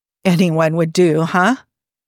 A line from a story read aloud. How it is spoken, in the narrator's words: He laughed harshly